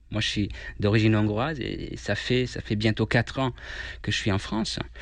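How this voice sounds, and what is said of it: Slight foreign accent in French. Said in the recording (French): “on l'entend un petit peu, vous avez un petit accent.”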